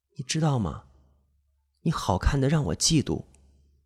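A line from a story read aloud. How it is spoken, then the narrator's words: Very close voice. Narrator (Chinese): 白树的声音很近很近，他说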